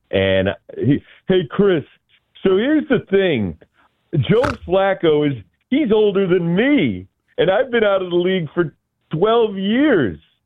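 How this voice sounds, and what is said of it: Imitates another person's voice. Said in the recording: “that's my Ross Tucker ... I think you nail it, though. I mean, that's a really good impersonation.”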